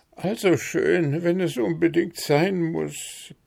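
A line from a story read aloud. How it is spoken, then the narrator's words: Grumpy mumbling. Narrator (German): brummelte der mißgestimmt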